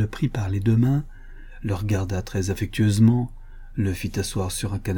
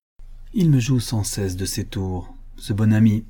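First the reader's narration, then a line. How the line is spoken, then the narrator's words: Cheerful. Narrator (French): Elle ajouta gaiement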